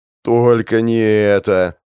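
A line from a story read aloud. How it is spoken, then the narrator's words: Groaning. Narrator (Russian): простонал Шали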